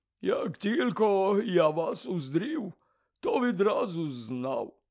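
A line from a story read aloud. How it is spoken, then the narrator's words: Strangely hoarse voice. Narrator (Ukrainian): сказав він дивно захриплим голосом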